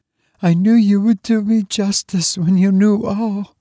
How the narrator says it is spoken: she sobbed

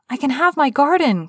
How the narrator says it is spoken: cried Mary

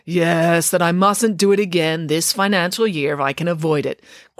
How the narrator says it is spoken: grumbled Nanny Piggins

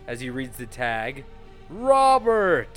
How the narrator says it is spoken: he yells so loud

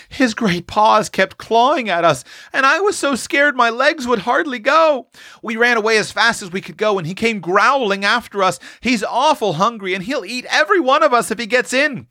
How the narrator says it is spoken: quavered Roxy

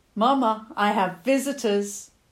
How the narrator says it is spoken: called out

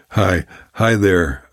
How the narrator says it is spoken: called out

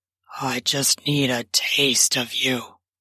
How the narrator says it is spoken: muttered

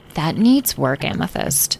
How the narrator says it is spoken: Citrine murmured

